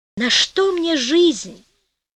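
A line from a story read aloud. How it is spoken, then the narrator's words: Moan. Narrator (Russian): простонал Маттео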